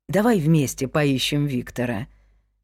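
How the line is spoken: Gentle suggestion. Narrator (Russian): мягко предложил мне Эрик Палмер

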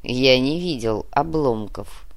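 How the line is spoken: Grand master's cold smirk. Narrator (Russian): холодно усмехнулся великий магистр

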